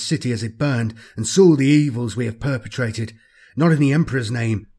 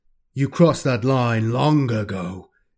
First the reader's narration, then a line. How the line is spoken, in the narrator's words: Constantius growls